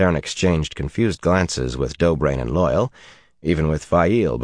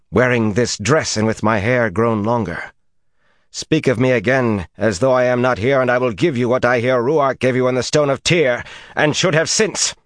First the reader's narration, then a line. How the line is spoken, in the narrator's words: Suelin broke in savagely